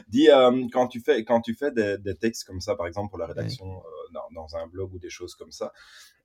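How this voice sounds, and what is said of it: Belgian French accent, blocked nose. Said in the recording (French): “T'es pas obligé de prendre l'accent belge comme ça ... ah, mon nez bouché en plus ... C'est le gars qui assume pas son accent pourri belge”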